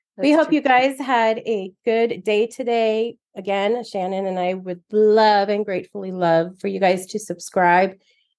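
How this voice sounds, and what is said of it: Hoarse, nearly lost voice. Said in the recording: “I'm like, can't sing. My voice is gone.”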